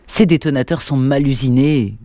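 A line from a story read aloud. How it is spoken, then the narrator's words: Grumbling. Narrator (French): grogna Luc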